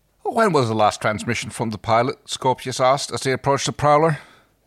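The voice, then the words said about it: Inconsistent attempted Manchester accent. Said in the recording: “that accent was all over. I was trying to do Manchester, but that went. ... That went just, all over the place.”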